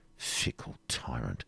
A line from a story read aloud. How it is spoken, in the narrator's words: muttered De Bracy